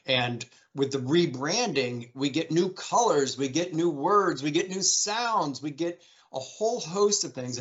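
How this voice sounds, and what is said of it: Excited, enthusiastic voice. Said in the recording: “I can hear the excitement in your voice ... I can hear it in your voice”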